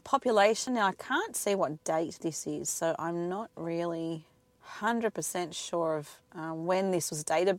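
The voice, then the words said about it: Croaky, hoarse voice. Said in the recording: “I apologize for my voice. I'm very croaky this morning.”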